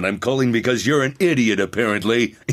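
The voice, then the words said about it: Duke Nukem impression. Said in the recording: “doing the Duke Nukem voice ... the Duke voice”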